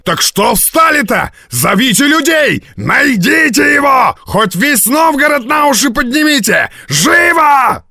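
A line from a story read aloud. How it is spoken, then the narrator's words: Nervous shouting. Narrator (Russian): закричал хозяин пивной, нервно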